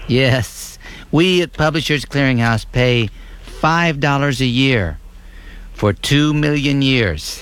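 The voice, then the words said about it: Poor impression of a sweepstakes announcer. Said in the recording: “That was a terrible impression of the people who run Publishers Clearinghouse.”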